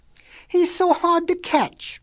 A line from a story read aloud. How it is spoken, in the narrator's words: whined the little wolves